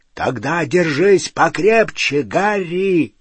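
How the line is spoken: Deafening hoarse roar. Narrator (Russian): Раздался оглушительный, хриплый рев

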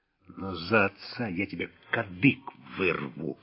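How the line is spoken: Hissed. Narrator (Russian): прошипел расписной

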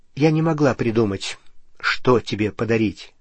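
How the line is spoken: Plain. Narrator (Russian): сказала она

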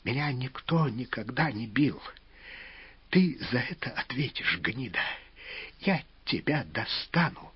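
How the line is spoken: Choking, semi-conscious mumble. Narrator (Russian): близок к потере сознания, захлебываясь, бормотал

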